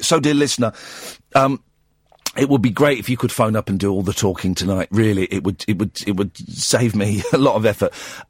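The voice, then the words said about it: Slightly strained, hoarse voice. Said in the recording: “I'm losing my voice a bit today ... I've just got a cold ... It's just strained a little bit.”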